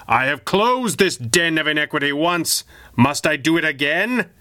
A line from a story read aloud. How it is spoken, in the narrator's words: he roared